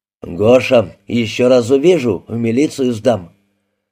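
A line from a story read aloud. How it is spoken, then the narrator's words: Angry deep bass. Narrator (Russian): сердито пробасил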